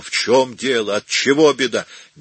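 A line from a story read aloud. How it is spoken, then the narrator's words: Horrified shouting. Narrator (Russian): Пораженный ужасом, Микеланджело кричал на Бернардино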